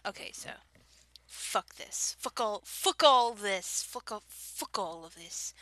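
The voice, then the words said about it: Bad fake British accent. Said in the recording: “my fake British accent, fake English accent ... That was bad.”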